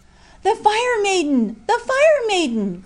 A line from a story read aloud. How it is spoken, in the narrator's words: cried the terrified fishermen and peasants